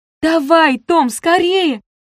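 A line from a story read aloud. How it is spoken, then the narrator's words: Shouted. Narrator (Russian): закричала Гвен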